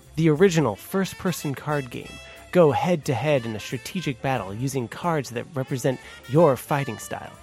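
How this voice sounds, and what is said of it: Announcer-style radio voice. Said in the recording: “great announcer voice ... my radio voice”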